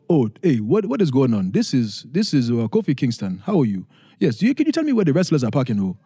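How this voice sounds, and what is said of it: Put-on African-esque accent. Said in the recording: “a little African-esque accent, trying to imitate my parents on that”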